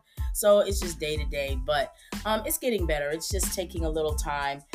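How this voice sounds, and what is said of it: Slightly hoarse recovering voice. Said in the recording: “my voice is not quite back the way that it was... Yesterday, I sounded like a complete frog”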